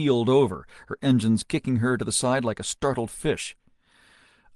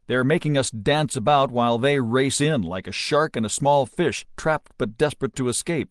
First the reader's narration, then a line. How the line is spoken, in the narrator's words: he growled